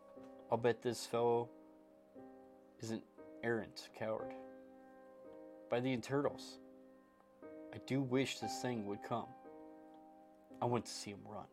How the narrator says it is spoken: Jackson whispered to the colleagues

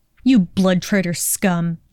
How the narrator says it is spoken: Draco spat

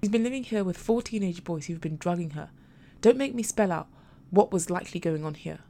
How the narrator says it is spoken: Marion said, her tone harsh to even her ears

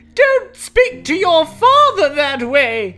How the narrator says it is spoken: shouted

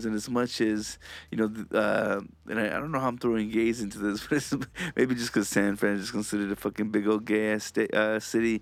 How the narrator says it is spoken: I laugh

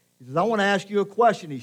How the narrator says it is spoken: he shouted

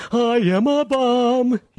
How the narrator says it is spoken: He yelled

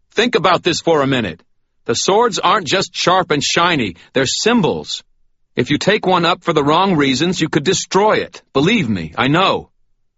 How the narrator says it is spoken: I shouted

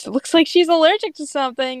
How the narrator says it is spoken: Grape laughs and then says

